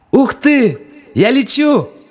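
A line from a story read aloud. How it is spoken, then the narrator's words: Joyful shout. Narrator (Russian): радостно закричала Лина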